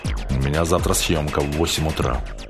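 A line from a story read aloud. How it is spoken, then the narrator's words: Irritated. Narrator (Russian): ответил я раздраженно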